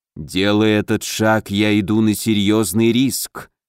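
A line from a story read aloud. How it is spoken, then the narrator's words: Unusually muffled drawl, ghost. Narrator (Russian): непривычно глухо протянул призрак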